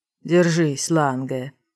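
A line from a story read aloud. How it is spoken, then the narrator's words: Wheezed. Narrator (Russian): просипел Морриган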